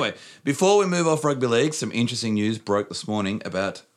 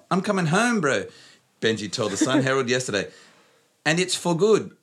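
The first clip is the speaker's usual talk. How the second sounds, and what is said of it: Poor put-on New Zealand accent. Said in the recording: “My New Zealand accent is terrible.”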